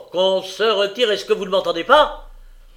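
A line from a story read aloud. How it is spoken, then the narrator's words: Even louder voice. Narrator (French): Il lui répéta d'une voix plus forte encore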